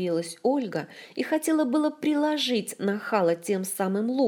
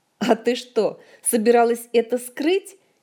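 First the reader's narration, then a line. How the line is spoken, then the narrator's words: Giggling. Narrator (Russian): Хихикнул он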